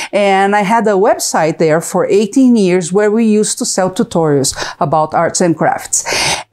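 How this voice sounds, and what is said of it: Brazilian-accented English. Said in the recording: “I'm from Brazil, if you can see the accent.”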